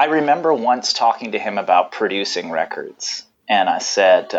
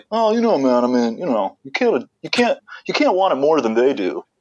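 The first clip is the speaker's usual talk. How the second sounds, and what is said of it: Impression of Chuck. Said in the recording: “That's a great impersonation of him, actually.”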